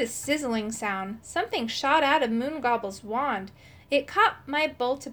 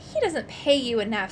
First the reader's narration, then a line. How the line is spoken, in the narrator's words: snapped my evil self